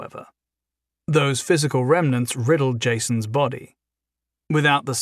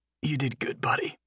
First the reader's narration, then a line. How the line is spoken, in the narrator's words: Jason croaked